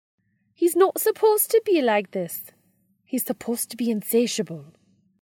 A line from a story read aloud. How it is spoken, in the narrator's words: she grouses in a Scottish brogue